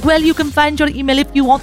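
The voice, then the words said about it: Put-on French accent. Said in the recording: “apologies for me doing the accent”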